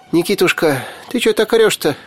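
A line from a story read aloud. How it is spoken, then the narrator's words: Frightened. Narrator (Russian): испуганно отшатнулась Яга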